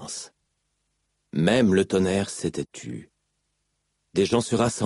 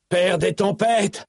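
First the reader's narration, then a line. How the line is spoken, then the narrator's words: Yelled. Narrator (French): hurla Dalinar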